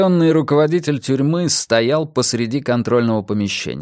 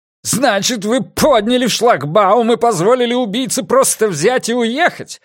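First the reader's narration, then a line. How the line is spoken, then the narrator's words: Spluttering furious shout. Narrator (Russian): брызгая слюной, прокричал Франк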